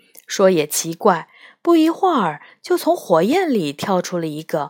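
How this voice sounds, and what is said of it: Usual voice. Nothing is said of it.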